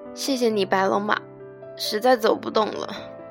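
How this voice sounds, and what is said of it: Cracked, hoarse low voice. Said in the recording (Chinese): “劈了的声音说 ... 声音里高音像被抽去了一样，只剩下浑浊的中低音”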